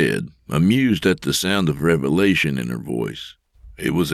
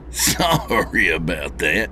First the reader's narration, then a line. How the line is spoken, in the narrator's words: he said with a chuckle